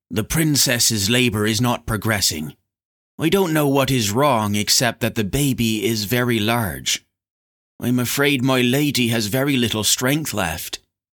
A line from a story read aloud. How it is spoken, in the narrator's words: she spoke gravely to Lorne